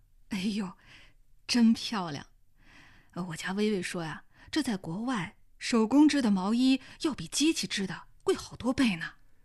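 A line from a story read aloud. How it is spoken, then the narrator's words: Admiring tutting. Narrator (Chinese): 王凤文发出啧啧的感叹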